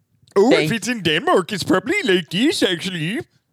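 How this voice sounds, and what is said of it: Mock Swedish Chef voice. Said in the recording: “The Swedish chef on Sesame Street, actually.”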